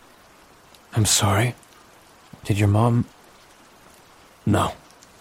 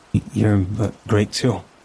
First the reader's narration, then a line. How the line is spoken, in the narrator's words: he stammered